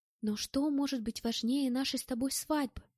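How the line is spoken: Whisper. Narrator (Russian): прошептала Мэтт

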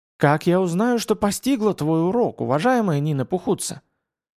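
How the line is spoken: Sighing. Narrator (Russian): вздохнула Митаюки Нэ

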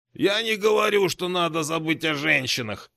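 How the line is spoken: Grumbled. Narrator (Russian): проворчал Одноглазый

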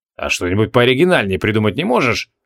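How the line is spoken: Skeptical snort. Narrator (Russian): хмыкнул Креол

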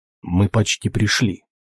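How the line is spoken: Quiet. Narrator (Russian): тихо сказал охотник

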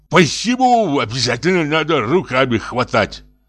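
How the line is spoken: Lisping shout. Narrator (Russian): закричал он шепеляво

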